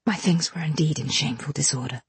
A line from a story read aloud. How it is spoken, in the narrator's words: murmured Helen to me in a low voice